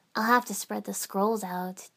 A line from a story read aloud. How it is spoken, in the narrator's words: Ten-Ten murmured